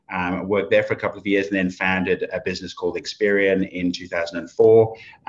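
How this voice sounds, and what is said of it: Mixed English, South African, Australian accent. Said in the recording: “my accent's a little bit weird because it's gone to the UK and South Africa and now Australia ... it used to be pretty, you know, pretty Oxford, England kind of accent before”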